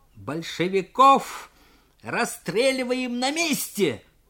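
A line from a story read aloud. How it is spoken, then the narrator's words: Threatening shout. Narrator (Russian): Угрожающе крикнул юнкер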